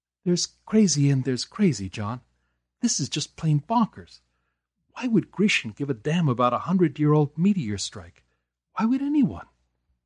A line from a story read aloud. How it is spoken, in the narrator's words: Knox sighed